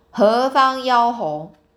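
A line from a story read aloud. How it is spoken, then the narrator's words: Loud deliberate question. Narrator (Chinese): 玉帝 故意大声问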